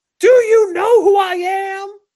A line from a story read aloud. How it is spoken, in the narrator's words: he yells that